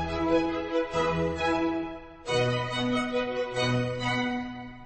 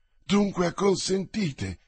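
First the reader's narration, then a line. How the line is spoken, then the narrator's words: Queen exclaiming joyfully. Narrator (Italian): esclamò la regina con gioia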